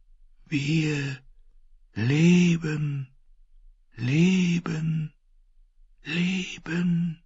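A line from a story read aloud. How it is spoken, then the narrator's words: Many voices whispering. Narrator (German): Myriaden von Stimmen wisperten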